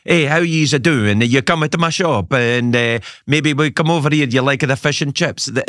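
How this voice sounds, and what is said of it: Put-on Italian Glaswegian accent. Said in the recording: “they speak Glasgow accents, but they have Italian Glasgow accents”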